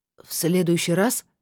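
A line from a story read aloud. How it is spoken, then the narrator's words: Timid question. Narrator (Russian): спросил кто-то робко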